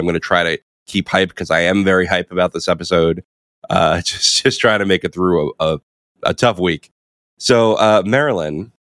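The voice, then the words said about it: Nasal, congested sick voice. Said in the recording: “my voice is a little different. I've had the flu for a few days ... apologies if I sound a little different ... I'm doing nasal chic”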